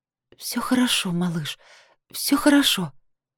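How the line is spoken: Nervous whisper. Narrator (Russian): произнесла я нервным шепотом

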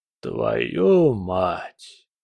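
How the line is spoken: Breathed out. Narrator (Russian): выдохнул Келлер

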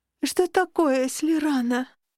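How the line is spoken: Sleepy yawning question. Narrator (Russian): демонстративно зевая, спросила сонно

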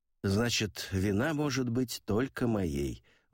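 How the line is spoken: Sigh. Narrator (Russian): вздохнул я

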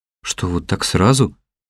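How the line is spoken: Confused question. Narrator (Russian): растерянно спросил я

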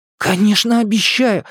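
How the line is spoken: Ardent exclamation. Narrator (Russian): с жаром воскликнул Эдди

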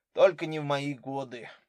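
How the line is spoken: Dejected. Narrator (Russian): уныло произнес Скульский

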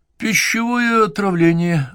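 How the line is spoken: Uncertain answer. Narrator (Russian): ответил тот как-то неуверенно

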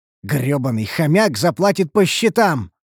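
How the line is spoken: Angry growl. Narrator (Russian): рыкнул я злобно

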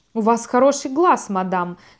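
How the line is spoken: Plain. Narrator (Russian): сказал он

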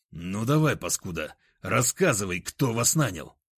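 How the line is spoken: Angry hiss. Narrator (Russian): зло прошипел я

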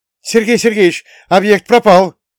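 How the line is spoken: Shouting. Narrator (Russian): крикнул один из сотрудников, отправленных за парнем

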